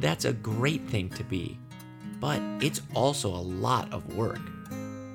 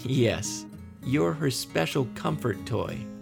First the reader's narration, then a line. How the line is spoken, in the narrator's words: laughed Amy